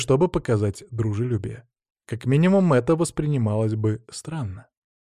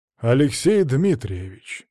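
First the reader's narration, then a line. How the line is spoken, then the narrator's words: Steely, commanding fatherly voice. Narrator (Russian): стальным голосом ответил отец Всеволода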